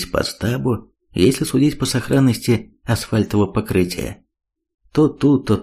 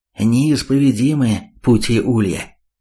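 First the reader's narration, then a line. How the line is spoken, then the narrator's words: Incredulous snort. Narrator (Russian): недоверчиво хмыкнул Каспер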